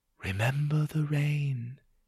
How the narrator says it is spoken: it whispered

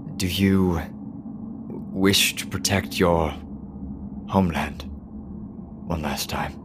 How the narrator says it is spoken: There are a couple mumbled words under his breath and he asks at first

